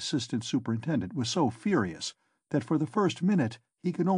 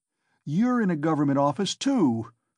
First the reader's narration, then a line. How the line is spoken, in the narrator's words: cried Raskolnikov